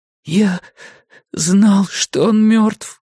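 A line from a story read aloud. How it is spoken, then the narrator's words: Hoarse wheeze. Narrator (Russian): просипел Том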